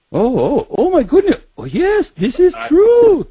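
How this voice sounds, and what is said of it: Thick Israeli accent imitation. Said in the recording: “he's got a real thick Israeli accent.”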